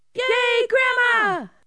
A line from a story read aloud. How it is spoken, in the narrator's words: shouted